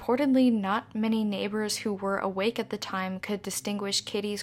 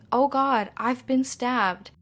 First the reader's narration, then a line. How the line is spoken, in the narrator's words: Kitty called out for help, saying